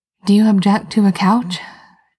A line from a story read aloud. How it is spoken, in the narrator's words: Genevieve said breathlessly